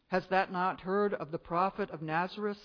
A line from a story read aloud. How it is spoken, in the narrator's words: said the other